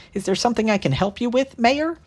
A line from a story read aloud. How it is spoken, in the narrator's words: said sweetly